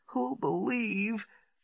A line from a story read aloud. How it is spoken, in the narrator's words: she wailed